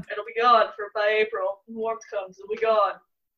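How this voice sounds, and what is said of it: Imitates another person's voice. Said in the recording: “That was a great Trump impression.”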